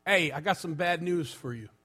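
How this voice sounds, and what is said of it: Put-on New York accent. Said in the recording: “in his New York accent”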